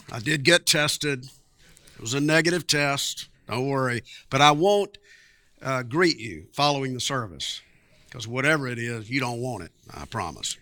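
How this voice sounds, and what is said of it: Raspy voice with occasional coughing. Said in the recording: “I'm sorry you have to listen to a raspy voice and maybe a little hacking, but it's just a cold.”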